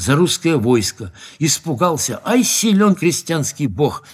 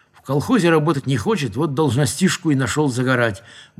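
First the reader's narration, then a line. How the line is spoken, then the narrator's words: Grumble. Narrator (Russian): буркнул другой из ребят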